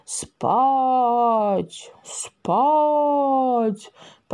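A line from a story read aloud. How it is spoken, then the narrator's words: Soulful coaxing voice. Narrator (Russian): проникновенным голосом уговаривал козла Коновалов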